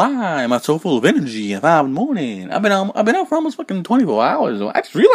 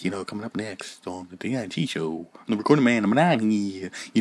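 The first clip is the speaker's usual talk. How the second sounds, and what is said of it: Mock radio announcer voice. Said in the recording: “Do I have a radio voice?”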